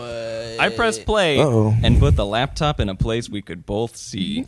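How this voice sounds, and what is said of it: Children's storybook reading voice. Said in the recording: “now you sound like a child book reader.”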